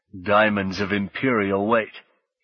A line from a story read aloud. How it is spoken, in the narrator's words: he heard himself saying in his deepened Thargor voice